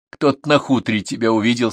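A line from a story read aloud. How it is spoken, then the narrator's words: Plain. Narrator (Russian): сказал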